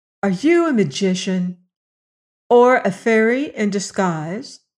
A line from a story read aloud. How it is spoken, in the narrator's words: she asked